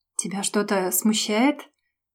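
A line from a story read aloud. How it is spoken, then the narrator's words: Strange husky drawl. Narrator (Russian): Как-то странно, с хрипотцой протянул Женя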